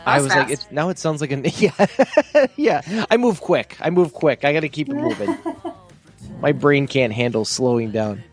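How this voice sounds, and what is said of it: Strong Wisconsin accent. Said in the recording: “your Wisconsin accent just came out real hard”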